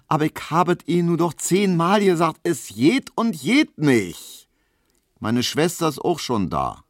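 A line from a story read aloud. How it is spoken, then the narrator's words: Called out. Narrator (German): rief Hedwig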